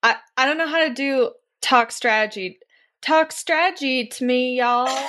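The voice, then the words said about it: Attempted Southern American accent. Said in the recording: “force a Southern accent out of myself”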